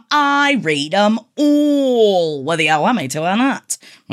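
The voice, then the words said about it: Sudden put-on accent. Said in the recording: “I don't know where that accent came from.”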